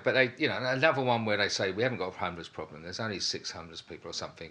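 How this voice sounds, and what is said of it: Essex accent. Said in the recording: “Essex, you know, ... I could tell by the accent.”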